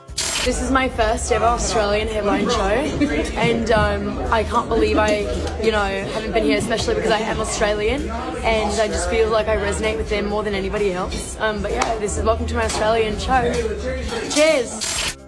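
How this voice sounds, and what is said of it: Put-on Australian accent, fairly convincing. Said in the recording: “best Australian accent ... her doing her Aussie accent ... If I didn't know what she sounded like, I'd think she maybe was Australian ... I was going to give it more Kiwi”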